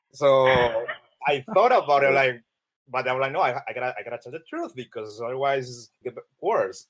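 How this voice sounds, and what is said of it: Colombian Spanish accent. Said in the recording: “you can realize that I have an accent ... I'm from Colombia”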